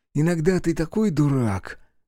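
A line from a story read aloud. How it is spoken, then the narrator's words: Grown-up sigh. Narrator (Russian): как-то по-взрослому вздохнул Михаил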